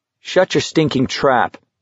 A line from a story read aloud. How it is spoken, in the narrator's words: McVries said coldly